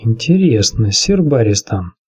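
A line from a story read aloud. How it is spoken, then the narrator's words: Quiet question. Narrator (Russian): негромко спросил Варис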